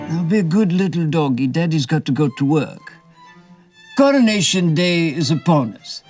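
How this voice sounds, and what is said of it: Impression of King Charles III. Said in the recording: “Dana Carvey, he of SNL fame, to do a brilliant impression of His Majesty”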